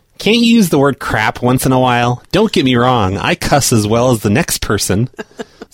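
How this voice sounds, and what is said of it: Imitates another person's voice. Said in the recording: “Am I doing a good impersonation of her? ... I assume she sounds like that, kind of.”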